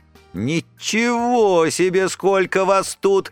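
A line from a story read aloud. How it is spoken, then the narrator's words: Cheerfully surprised. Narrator (Russian): весело удивилась она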